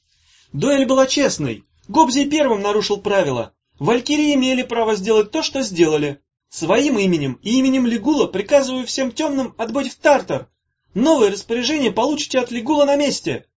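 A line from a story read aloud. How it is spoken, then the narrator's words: Shrill ringing shout. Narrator (Russian): Молодым петушком звонко крикнул Ромасюсик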